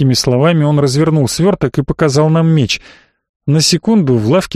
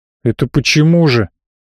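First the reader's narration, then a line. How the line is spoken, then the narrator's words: Openly angry dwarf asking. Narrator (Russian): Уже откровенно зло спросил гном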